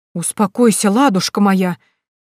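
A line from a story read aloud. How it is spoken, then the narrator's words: Frightened exclamation. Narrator (Russian): испуганно воскликнула купчиха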